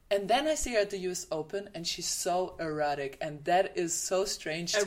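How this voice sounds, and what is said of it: German accent. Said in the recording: “Sorry for my German accent, guys.”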